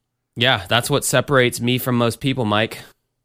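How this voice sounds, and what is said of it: Usual voice. Nothing is said of it.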